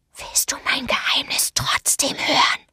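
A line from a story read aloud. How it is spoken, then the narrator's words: Whispered. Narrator (German): flüsterte er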